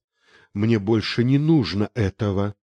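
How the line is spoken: Breathless whisper. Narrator (Russian): шептал Герман, тяжело дыша

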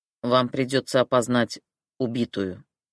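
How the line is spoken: Wooden flat voice. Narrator (Russian): деревянным голосом сказал он

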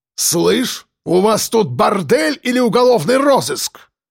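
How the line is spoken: Barked retort. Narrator (Russian): Рявкнул в ответ Мордюков

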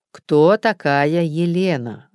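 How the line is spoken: Gentle repetition. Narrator (Russian): ласково повторил детектив

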